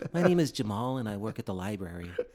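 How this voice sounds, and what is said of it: Put-on stereotypical white guy voice. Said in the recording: “Is that your white guy voice? ... You still sound black ... a black guy doing a white guy voice”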